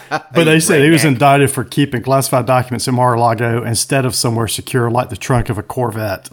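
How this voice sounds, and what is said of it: South Georgia Southern accent. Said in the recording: “With your accent ... How do we say it down in South Georgia?”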